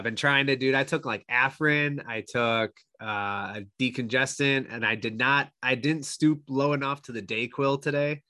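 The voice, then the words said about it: Congested, nasal voice. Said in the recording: “I do have like this stupid ass stuffy nose ... can hear that in my voice, or if I sound nasally”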